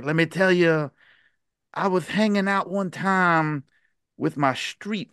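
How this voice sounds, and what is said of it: Bad Dusty Rhodes impression. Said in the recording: “my awful Dusty Rhodes impression”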